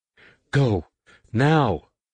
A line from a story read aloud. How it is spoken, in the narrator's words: Leia cried